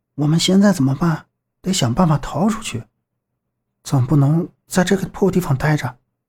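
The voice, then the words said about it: Quiet, hushed speaking. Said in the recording (Chinese): “小声说道”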